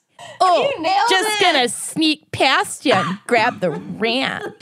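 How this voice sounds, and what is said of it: Put-on Minnesotan accent, daddy voice. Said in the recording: “half daddy, half Minnesotan accent ... This is gross ... there's a new character”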